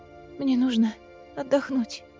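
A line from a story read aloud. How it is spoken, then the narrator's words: Weak-voiced admission. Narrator (Russian): слабым голосом призналась Гвин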